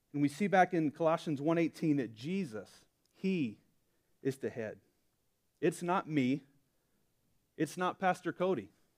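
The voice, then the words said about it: Southern Alabama accent. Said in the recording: “you know I'm from Alabama. Maybe I have a little bit of an accent”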